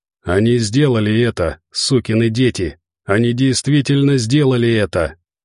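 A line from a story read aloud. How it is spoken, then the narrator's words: Growled. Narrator (Russian): прорычал Торн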